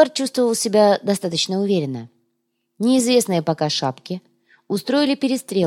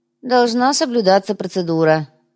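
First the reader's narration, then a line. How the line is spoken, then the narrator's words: Sighing. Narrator (Russian): вздохнул Кумар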